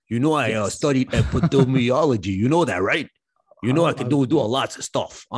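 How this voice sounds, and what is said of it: Put-on Brooklyn accent. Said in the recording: “I'm from Brooklyn and I got an accent.”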